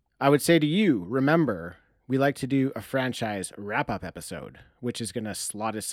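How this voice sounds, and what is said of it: Usual voice. Nothing is said of it.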